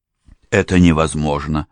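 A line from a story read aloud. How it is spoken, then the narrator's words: Exclamation. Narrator (Russian): воскликнул Форд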